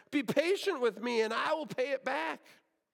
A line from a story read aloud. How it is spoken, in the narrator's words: His fellow servant begged